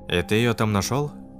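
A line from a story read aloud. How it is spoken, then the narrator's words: Plain. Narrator (Russian): спросил Руслан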